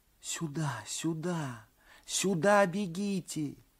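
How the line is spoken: Whispered. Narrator (Russian): шептали губы

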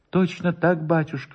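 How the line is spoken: Trembling voice. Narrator (Russian): повторил Воробьев дрожащим голосом

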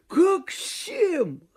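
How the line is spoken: Laughing, teasing. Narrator (Russian): хохотал, поддразнивая однорукой

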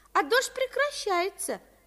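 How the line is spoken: Joyful. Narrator (Russian): радостно сообщила Авдотья Павловна

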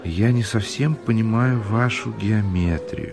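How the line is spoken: Quiet. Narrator (Russian): тихо говорил Подтягин

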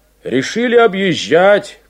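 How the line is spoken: Shout. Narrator (Russian): крикнул он

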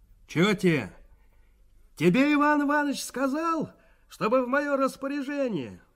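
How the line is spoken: Shouted. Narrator (Russian): прокричал Валерка

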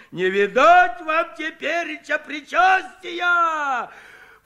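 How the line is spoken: Mock-horrified shout. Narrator (Russian): В притворном ужасе закричал Куженков

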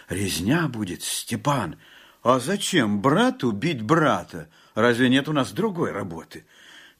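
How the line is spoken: Fearful whisper. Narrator (Russian): Жапак только прошептал в страхе

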